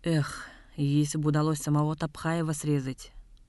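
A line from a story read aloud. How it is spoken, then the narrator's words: Sighing. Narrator (Russian): вздохнул Дылгыр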